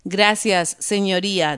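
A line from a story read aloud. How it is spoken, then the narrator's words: Plain. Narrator (Spanish): dijo el hombre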